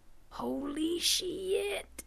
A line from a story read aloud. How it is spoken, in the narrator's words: Vaco whispered